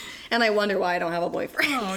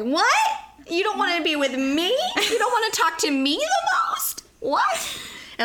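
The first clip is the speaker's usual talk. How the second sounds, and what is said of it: Squeaky weird voice. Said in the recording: “squeaking in this weird voice”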